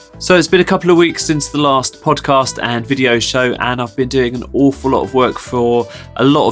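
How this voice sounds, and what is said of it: Croaky, sick-sounding voice. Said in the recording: “I am very sick this week, so you'll have to excuse my croaky voice ... a big kind of fluey cold thing ... my voice isn't quite as uh, good as it normally is”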